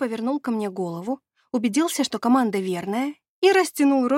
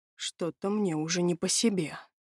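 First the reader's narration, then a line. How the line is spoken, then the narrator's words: Muttered. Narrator (Russian): пробормотал Леон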